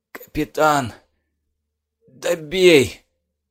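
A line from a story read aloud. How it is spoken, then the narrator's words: Hoarse pleading. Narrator (Russian): попросил парень хрипло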